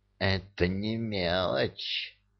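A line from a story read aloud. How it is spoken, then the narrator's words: Hateful hiss. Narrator (Russian): прошипел Амар, с ненавистью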